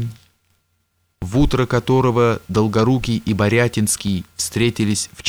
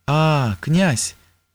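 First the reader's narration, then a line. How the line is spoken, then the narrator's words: Drawn-out speech. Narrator (Russian): протянула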